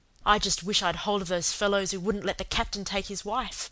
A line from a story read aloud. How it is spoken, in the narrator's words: said Peter savagely